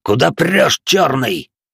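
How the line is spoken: Rough growl. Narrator (Russian): Грубо рыкнул один из бандитов

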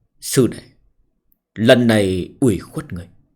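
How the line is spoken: Sighing. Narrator (Vietnamese): Cung Lâm Sách buông tiếng thở dài

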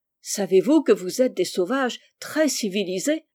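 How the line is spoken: Laughing. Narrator (French): dit Rose en riant

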